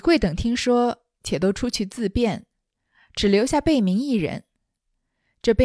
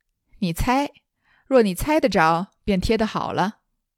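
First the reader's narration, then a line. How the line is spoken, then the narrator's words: Laughing. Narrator (Chinese): 宝玉笑道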